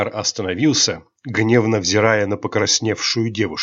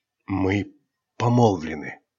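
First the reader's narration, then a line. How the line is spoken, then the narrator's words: Quiet, embarrassed. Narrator (Russian): тихо ответила Айрин, смущенно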